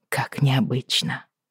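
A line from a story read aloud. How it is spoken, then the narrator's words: Muttering. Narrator (Russian): пробормотала я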